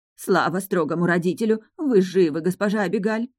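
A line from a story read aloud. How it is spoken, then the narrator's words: Tearful exclamation. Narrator (Russian): воскликнула няня и смахнула слезу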